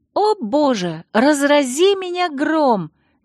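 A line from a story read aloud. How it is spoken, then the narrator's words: Sudden unceremonious exclamation. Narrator (Russian): неожиданно без церемонии воскликнула Алексис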